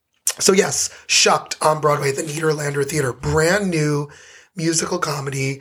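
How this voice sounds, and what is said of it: Hoarse, fading voice. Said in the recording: “I'm losing my voice ... voice is gone”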